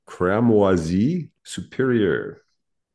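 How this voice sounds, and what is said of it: Says the name slowly. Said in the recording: “I'll say it slowly”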